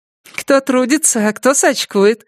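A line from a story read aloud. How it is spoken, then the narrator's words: Mocking reply. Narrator (Russian): насмешливо отозвалась Лена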